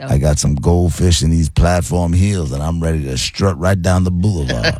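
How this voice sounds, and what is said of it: Put-on smooth-talking guy voice. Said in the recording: “accent thingy ... You sound like you're trying to sound like a smooth brother ... I like the voice”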